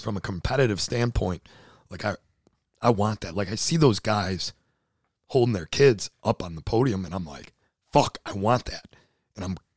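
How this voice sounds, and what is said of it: Hoarse, nearly lost voice. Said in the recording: “your voice is like gone ... my voice is gone from the entire effing week”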